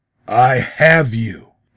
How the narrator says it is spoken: repeated thickly

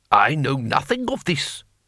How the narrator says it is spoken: snapped Lord Tang

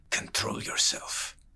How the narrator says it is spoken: the spider's man spat in his ear

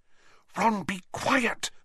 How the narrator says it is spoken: Hermione whispered urgently

